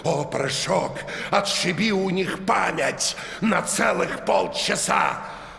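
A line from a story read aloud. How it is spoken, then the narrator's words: Exclaiming. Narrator (Russian): незнакомец ... воскликнул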